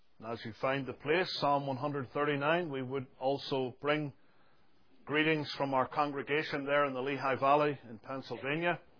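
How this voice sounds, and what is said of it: Speaks with a brogue. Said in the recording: “Maybe my accent doesn't betray that fact ... Some people say that Mr. Cranston's brogue is stronger than mine.”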